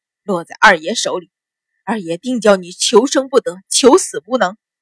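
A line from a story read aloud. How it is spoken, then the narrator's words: Cursing through gritted teeth. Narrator (Chinese): 秦鹏咬牙切齿的骂道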